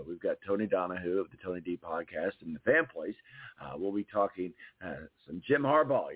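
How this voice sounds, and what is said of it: Strained, nearly lost voice. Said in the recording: “my throat is about gone. So my voice is about gone.”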